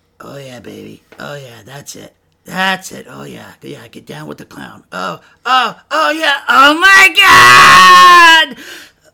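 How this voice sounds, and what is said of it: Cartoon clown voice, moaning. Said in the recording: “this is my imitation of Krusty the Clown having an orgasm”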